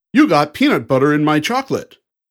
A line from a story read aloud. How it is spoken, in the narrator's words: the actors exclaim